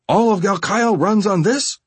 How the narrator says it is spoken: I shouted at Gerlach

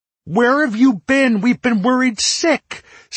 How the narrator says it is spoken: Cedar was nearly shrieking

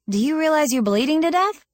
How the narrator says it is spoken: I'd exclaimed

